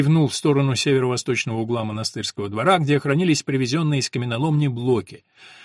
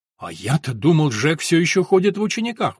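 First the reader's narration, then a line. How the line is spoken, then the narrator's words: Exclaimed. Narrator (Russian): воскликнул приор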